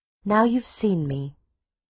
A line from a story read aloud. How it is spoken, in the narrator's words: she said calmly